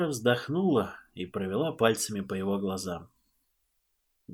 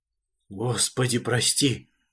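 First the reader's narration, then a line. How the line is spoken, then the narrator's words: Priest's exhaled words. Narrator (Russian): выдохнул поп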